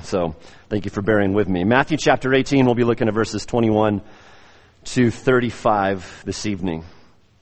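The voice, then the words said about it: Slightly raspy, strained voice. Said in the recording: “my voice is a little raspy ... I had to exercise my voice in an outdoor, windy venue”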